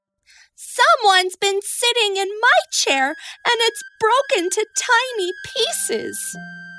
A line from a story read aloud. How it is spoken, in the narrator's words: cried Baby Bear